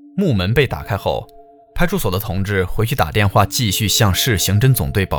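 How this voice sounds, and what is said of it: Usual voice. Nothing is said of it.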